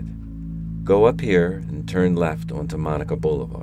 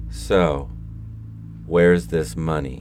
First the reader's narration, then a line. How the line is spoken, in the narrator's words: He asked coldly